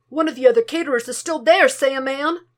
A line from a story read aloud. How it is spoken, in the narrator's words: exclaimed